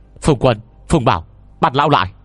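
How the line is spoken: Loud shout. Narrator (Vietnamese): Tôi hét lớn

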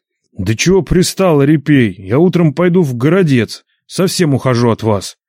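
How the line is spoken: Angry near-shout. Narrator (Russian): чуть не крикнул Нечай, вдруг озлясь на беспутую бабу

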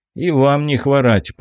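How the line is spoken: Muttering. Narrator (Russian): пробурчал я

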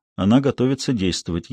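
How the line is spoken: Barely audible. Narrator (Russian): еле слышно сказал Пэдди

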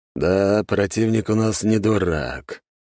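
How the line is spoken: Sigh. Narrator (Russian): вздохнул Голицын

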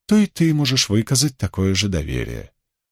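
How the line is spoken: Melodious female voice. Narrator (Russian): произнесла тем же мелодичным голосом невидимая женщина

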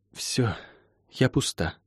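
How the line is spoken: Breathed out. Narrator (Russian): выдохнула она

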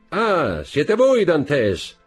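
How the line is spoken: Man shouting from boat. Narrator (Italian): gridò l'uomo dalla barca

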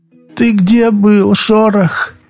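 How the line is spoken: Moaning. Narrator (Russian): простонала она

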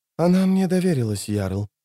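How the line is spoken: Barely audible whisper. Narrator (Russian): еле слышно прошептала жрица

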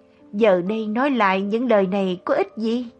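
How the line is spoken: Anguished, choked voice. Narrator (Vietnamese): Trên mặt lão gia hiện rõ vẻ thống khổ, run rẩy, nghẹn ngào nói

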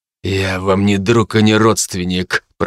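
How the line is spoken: Hissed, male. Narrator (Russian): прошипел он

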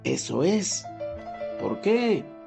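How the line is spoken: Sweet tiny murmur. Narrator (Spanish): murmuró una margarita con una dulce vocecilla

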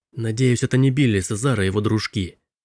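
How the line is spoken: Muttered. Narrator (Russian): пробормотал Робби

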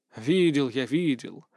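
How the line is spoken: Lazy dismissal. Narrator (Russian): лениво отмахнулся

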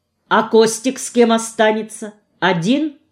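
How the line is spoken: Stern question. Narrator (Russian): строго спросила я

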